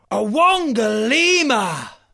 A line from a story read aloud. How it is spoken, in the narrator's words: roared the lion